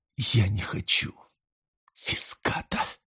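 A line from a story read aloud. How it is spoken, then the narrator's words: Quiet cursing. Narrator (Russian): Негромко выругалась она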